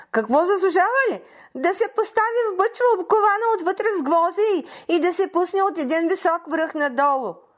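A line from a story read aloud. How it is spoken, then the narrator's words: Witch shouting. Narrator (Bulgarian): Вещицата извикала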